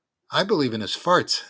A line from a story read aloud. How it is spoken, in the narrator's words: said Izzy